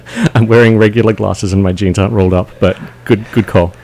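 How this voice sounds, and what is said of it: Mild Australian accent. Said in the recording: “You have a little bit of an accent. ... Australia. Melbourne.”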